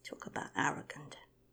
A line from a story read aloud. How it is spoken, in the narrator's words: muttered Hawk